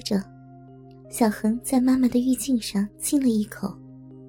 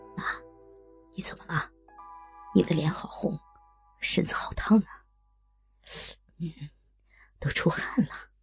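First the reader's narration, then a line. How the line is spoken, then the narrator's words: Soft, close to ear. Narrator (Chinese): 小恒……将嘴凑近她的耳边……轻声说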